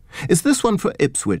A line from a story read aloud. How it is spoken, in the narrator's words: panted, flashing a smile